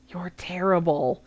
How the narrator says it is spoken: Hermione whispered up at him

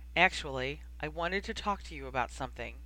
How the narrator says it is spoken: said evenly

